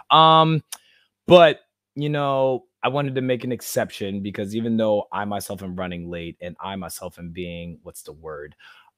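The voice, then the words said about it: Rough, raspy hoarse voice. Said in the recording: “my voice sounds kind of crazy right now... it sounds like I've been smoking cigarettes backwards”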